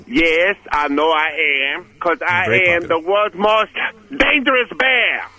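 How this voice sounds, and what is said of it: Put-on foreign accent. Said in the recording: “That's a good accent right now”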